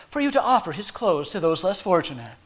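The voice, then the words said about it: Gentle, put-on pastoral sensitive voice. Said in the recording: “in my best pastorally sensitive voice”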